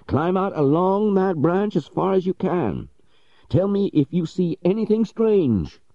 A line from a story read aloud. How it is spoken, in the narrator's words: cried Legrand with much excitement